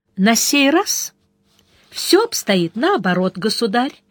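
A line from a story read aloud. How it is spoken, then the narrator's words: Pleasant voice. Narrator (Russian): приятным голосом отозвался мастер печальных церемоний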